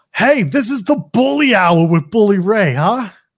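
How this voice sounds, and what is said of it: Bad put-on New York accent. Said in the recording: “that was a terrible New York accent”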